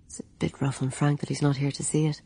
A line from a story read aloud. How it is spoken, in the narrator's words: he murmured to Anna